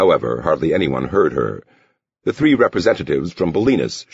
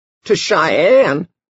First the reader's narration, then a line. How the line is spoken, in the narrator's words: the pharmacist quavered